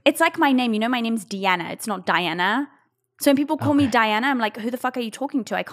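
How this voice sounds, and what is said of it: Mild, hard-to-place English-sounding accent. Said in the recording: “my accent, because it's kind of English, but it's not super English like this ... are you American? Are you Australian?”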